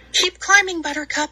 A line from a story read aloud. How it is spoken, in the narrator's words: said Dandy breathlessly